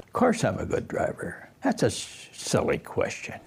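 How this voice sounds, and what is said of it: Angry, defensive elderly man's voice. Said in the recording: “Like you can hear the anger in his voice.”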